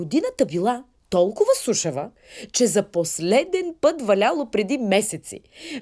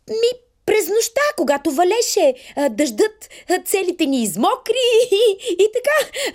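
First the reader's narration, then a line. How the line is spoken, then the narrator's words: Children, joyful. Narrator (Bulgarian): радостно му отговорили децата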